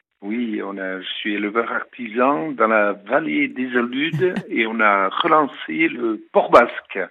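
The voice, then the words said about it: Regional French accent. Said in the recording (French): “rien que votre accent me donne faim”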